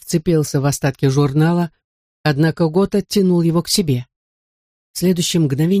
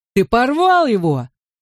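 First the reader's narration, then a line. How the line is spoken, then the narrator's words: Yelling. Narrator (Russian): завопил Гота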